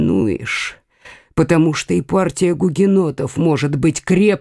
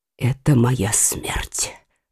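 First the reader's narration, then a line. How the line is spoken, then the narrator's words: Whispered. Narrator (Russian): прошептал Генрих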